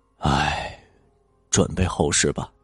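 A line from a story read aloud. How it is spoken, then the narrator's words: Sighing old man. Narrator (Chinese): 老道却是摇头叹气的说道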